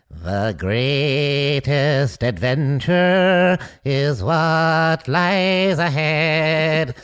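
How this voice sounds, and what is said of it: Sung imitation with throaty quaver. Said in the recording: “hear my impression of the singing guy ... You gotta do your throat, you know, to uh-huh. get that quaver.”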